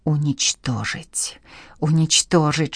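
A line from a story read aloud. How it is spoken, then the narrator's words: Whispering. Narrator (Russian): шептал он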